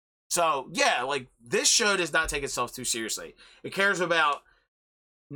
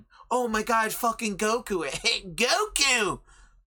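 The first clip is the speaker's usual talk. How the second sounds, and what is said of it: Cartoon character voice impression. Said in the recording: “my King Kai impression.”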